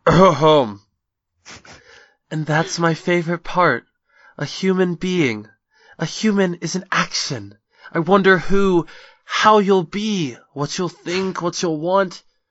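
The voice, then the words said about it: Reads in a character's voice. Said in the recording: “I'm going to read this in my Rose voice.”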